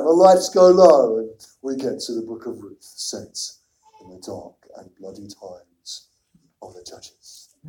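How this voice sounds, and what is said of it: Deep movie-trailer narrator voice. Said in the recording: “I can't really do a really deep voice, but it's that film intro ... my best impression of it. And a film intro.”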